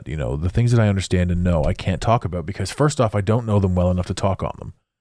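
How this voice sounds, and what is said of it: Deeper, sick-sounding voice. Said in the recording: “my voice is a little bit different... I ended up getting really sick... bear with my deeper now voice”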